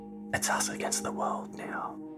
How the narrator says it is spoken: Brady was able to whisper in her ear

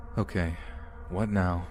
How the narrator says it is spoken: in a gentle, nonchalant tone

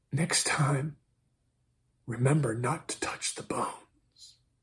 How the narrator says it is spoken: She whispered

